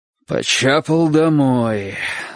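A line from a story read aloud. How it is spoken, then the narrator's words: Sighing. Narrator (Russian): вздохнул человек, стоявший над Чиком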